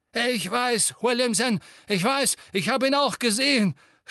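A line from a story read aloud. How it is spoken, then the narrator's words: Breathless stammering. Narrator (German): stammelte Fudge, keuchte, als ob er gerade meilenweit gerannt wäre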